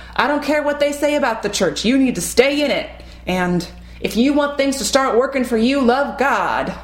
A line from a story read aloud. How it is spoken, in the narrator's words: slamming a fist on the pulpit, shouting